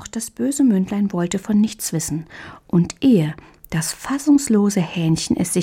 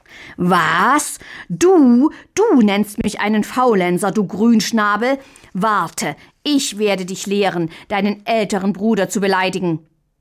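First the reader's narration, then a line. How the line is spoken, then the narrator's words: Furious roaring, even louder. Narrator (German): Mündlein rot vor Wut, brüllte noch lauter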